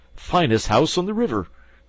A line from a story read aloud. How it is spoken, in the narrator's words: cried Toad boisterously